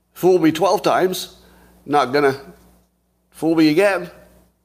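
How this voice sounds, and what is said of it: Put-on accent. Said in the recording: “I have to do it in this accent.”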